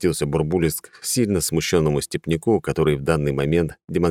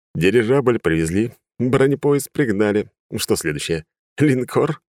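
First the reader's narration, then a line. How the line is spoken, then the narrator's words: Laughing. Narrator (Russian): рассмеялся Бурбулис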